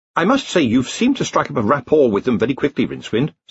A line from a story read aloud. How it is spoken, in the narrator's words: said Ponder